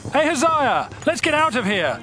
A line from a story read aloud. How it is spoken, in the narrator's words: Joram yelled